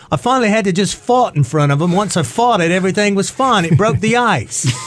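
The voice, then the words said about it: Bad put-on English accent. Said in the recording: “It's my bad English accent”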